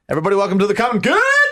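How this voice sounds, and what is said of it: Imitates co-host's punchy, clipped welcome. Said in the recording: “It's just a mirroring. It's just an impersonation. ... Like you're hiking a football.”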